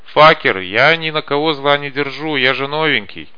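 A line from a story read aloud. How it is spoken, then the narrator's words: Shout. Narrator (Russian): Каша крикнул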